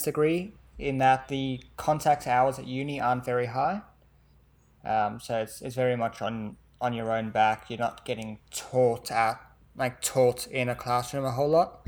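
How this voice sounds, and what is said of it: Faint South African accent. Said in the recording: “where's that accent from? ... South Africa. It comes through sometimes, yeah. ... It's nearly gone.”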